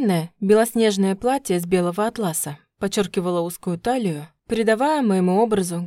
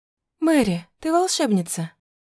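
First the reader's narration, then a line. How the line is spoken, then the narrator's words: Breathless exclamation. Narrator (Russian): Выдохнула я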